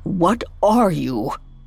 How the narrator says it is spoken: croaked Scrooge, finally finding his voice

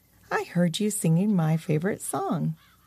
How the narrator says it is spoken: The creature calmly said

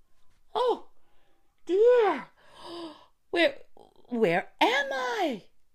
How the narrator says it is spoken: cried she

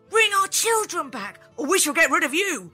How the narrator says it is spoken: The townspeople cried

